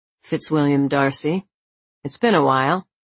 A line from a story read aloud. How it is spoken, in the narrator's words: coolly, Jasper said